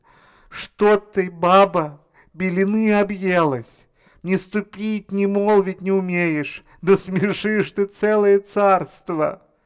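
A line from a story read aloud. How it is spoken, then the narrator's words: Frightened old man pleading. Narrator (Russian): Испугался старик, взмолился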